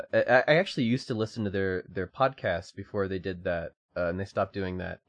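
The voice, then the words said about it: Slight British accent. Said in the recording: “That's a primo British accent, though, that you've developed from all this ... I've also had a bit of a British accent”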